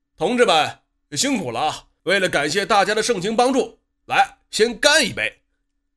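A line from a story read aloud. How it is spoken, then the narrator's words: Loud. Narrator (Chinese): 老马……大声的说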